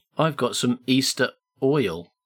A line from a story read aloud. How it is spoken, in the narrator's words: said Bertie